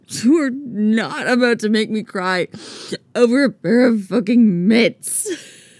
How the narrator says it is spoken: Steve sobs

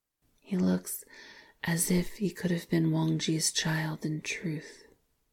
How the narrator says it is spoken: he said softly

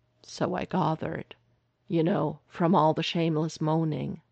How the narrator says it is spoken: Derek said dryly

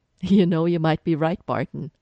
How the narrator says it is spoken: Sitwell's laughing practically in Clint's ear

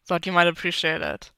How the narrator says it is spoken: Matt chuckled

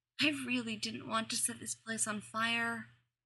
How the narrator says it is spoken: murmured Buffy

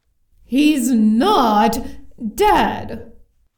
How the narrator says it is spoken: growled the castle, with the annoyance of someone who felt they weren't being listened to properly at all

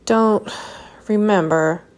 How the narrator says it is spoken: Sherlock said weakly

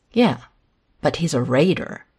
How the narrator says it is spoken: Hayden hisses

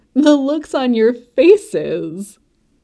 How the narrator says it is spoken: And then Emilia was laughing too

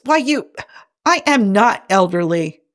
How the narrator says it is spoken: McCoy sputters

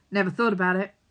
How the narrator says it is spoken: he says

